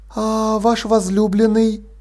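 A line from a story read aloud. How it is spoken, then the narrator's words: Quiet question. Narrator (Russian): тихо спросила Полли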